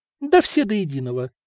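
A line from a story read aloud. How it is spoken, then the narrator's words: Calm reply. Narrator (Russian): спокойно ответила Любава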